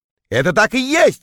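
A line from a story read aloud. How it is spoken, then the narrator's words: Shout. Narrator (Russian): крикнул я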